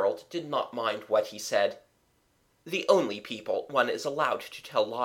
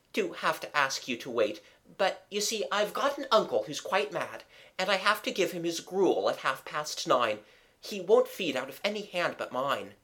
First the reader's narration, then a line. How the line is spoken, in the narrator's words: he urged eagerly